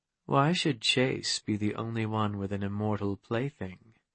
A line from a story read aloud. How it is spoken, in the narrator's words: she'd softly queried